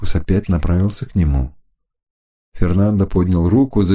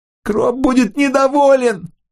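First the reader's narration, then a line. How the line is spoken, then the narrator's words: Whimpering from behind. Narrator (Russian): захныкал Фернандо позади него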